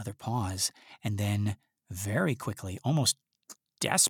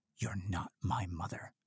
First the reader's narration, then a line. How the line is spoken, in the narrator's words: he says, quietly, calmly, almost as if to himself